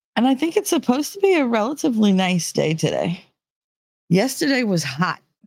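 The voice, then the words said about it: New Jersey accent. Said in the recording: “I'm coming at you from New Jersey, and if you couldn't tell by the accent.”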